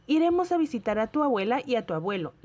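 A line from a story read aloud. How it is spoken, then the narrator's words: Lively mother's voice. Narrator (Spanish): le dijo mamá en un tono vivaz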